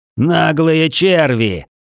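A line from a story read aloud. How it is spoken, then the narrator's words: Hysterical shout. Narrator (Russian): С ноткой истерики выкрикнул мэр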